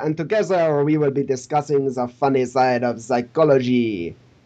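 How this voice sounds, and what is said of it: Put-on Hercule Poirot accent. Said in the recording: “Poirot... It's nothing to do with the accent”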